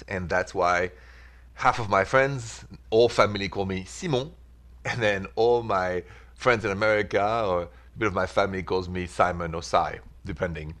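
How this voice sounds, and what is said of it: French accent. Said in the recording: “because I'm from Paris, France, so that's the accent”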